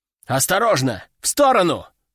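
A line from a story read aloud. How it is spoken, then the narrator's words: Shouted over radio. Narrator (Russian): прокричал в рацию снайпер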